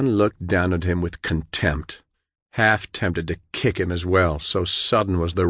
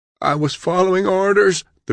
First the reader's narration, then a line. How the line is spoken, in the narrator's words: the prisoner gasped, his scorched face contorted in agony